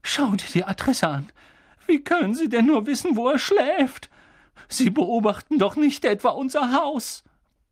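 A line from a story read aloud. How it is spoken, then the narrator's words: Trembling voice. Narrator (German): sagte Tante Petunia mit zitternder Stimme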